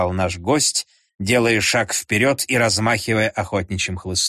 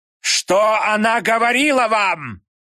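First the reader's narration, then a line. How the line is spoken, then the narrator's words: Old man's angry shout. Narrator (Russian): злобно закричал старик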